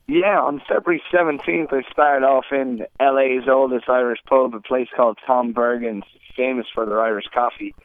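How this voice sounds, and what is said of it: Irish accent. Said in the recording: “there's an Irish accent for you”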